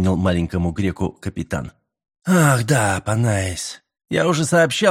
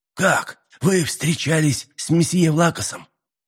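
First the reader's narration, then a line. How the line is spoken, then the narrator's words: Delighted exclamation. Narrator (Russian): восторженно воскликнул Лука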